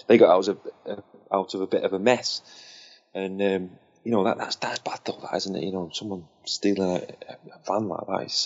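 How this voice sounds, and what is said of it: Strained, fading hoarse voice. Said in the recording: “I'm losing my voice tonight, mate.”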